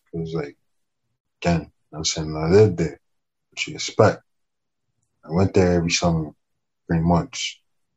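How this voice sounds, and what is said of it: Hispanic Miami accent with Jamaican traces. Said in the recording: “you probably hear like the whole Hispanic Miami accent ... sometimes when I talk, like the Jamaican comes out”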